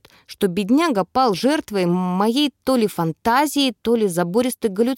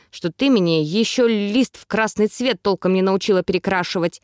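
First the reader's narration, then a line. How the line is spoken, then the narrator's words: Growling. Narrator (Russian): рыкнул вандал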